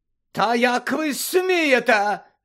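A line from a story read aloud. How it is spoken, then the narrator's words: Shout. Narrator (Ukrainian): закричала мадам Максим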